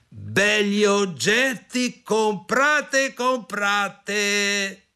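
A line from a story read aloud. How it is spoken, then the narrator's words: Shouted. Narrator (Italian): gridò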